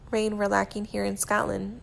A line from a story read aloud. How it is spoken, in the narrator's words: Louis says teasingly